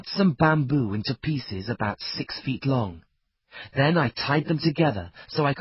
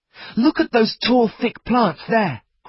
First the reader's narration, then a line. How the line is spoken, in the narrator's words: cried Ernest